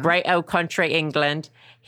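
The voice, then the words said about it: Bad put-on British accent. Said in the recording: “another horrible British accent, which I guess I just did”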